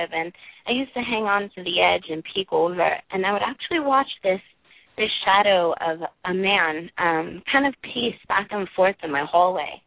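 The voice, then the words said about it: Brooklyn accent. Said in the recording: “I grew up in Brooklyn, hence the accent.”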